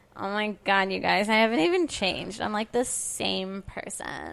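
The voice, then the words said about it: Valley girl voice with vocal fry. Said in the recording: “That's just my valley girl ... It's the vocal fry ... It's a little bit like Alan Rickman, except you're vocal frying it in the throat instead of the nose.”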